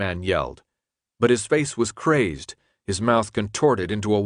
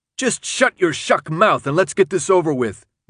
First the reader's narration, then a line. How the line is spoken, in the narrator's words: Minho shouted back at him